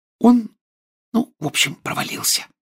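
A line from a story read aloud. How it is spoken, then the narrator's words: Whisper. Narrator (Russian): прошептала Гермиона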